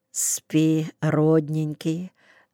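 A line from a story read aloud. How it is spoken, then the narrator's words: Very quiet. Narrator (Russian): добавила совсем тихо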